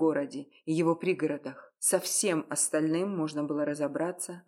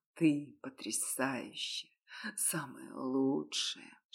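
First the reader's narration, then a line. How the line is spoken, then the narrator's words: Intimate whisper. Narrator (Russian): шептал я ей уже после первого секса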